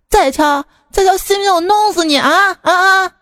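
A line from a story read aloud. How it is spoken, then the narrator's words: Angry shout. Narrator (Chinese): 冲门口大喊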